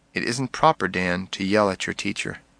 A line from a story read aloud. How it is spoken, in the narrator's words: Softly, he said